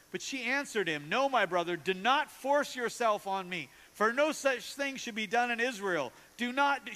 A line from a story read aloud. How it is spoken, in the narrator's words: pleading